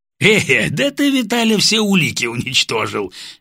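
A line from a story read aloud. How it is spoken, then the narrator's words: Cheerful. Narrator (Russian): весело сообщил мне Володя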